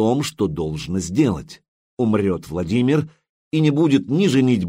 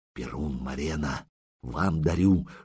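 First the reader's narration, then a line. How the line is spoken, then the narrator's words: Whisper. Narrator (Russian): шепнул Рогнеда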